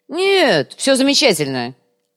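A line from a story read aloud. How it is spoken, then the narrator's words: Angry reply. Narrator (Russian): зло ответил Кумар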